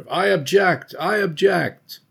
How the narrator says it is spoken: cries are heard

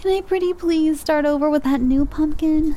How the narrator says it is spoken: whines

